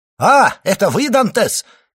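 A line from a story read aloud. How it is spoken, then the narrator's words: Man shouting. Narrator (Russian): крикнул человек в лодке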